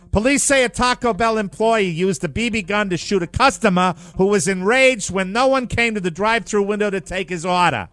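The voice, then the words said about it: Massachusetts accent. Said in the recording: “I will be adopting the Mass accent”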